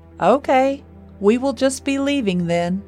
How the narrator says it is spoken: Roger said in a loud voice

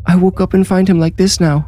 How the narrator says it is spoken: sobbed

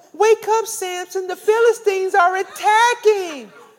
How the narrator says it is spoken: Delilah cries out

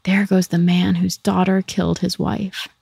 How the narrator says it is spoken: People pointed at him wherever he went and whispered

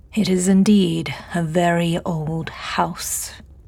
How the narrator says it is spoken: James drawled, a slight insulting emphasis on the last word

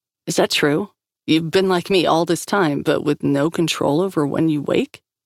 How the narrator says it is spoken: Grace laughed in his face

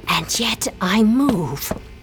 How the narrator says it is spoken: she whispers

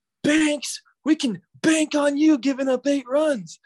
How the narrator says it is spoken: this fan yells

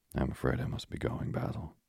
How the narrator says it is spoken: he murmured

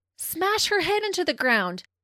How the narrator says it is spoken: About Leonie, Christine screams to Leah

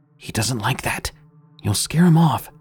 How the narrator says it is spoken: In what I could describe best as a whisper shout, she replied with

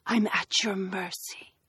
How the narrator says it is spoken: whispers

